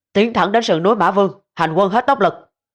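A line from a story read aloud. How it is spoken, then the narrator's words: Loud command. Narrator (Vietnamese): Ngụy Nghiêm quát lớn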